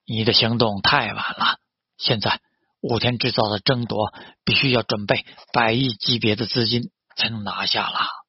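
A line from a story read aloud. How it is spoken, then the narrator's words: Sighing. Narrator (Chinese): 他叹了一口气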